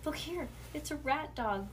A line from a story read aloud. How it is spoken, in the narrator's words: Bean whispered louder